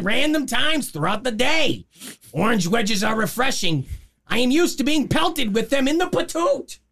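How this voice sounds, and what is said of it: Imitates another person's voice. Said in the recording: “You sound like Gilbert Gottfried's cousin, Moishe.”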